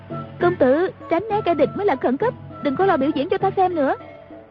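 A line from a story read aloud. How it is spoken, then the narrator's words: Urgent call. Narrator (Vietnamese): Ngữ Yên kêu lên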